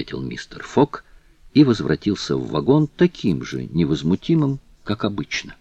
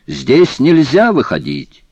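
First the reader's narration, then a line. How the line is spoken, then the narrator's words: Shouting conductor. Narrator (Russian): кондуктор закричал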